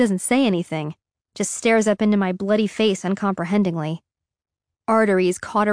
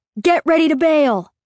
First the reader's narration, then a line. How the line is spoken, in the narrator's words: shout in her ear